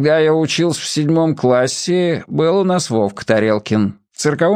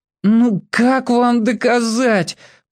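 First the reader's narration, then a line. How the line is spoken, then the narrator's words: Groaning. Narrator (Russian): простонал Маркони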